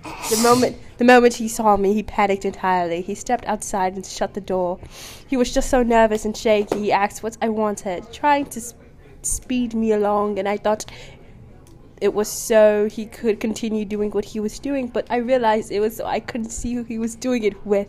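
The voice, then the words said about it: Put-on accent, read quickly. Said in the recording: “say it quickly or I'm going to lose my accent.”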